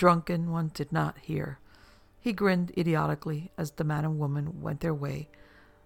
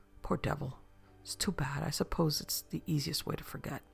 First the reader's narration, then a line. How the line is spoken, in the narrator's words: In undertone, the man muttered